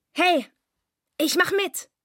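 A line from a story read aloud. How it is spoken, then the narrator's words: Called out. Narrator (German): rief er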